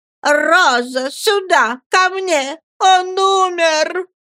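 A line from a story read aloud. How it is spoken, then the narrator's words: Terrible scream. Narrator (Russian): она кричит страшным голосом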